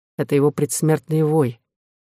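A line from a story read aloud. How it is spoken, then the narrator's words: Calm. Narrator (Russian): сказал Дюлют спокойно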